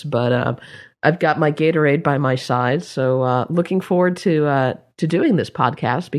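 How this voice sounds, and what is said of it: Congested head-cold voice. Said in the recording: “I've got the obligatory Blog World head cold, as you may be able to tell from my voice.”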